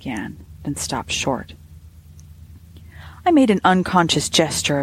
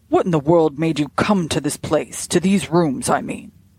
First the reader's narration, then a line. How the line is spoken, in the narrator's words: he blurted out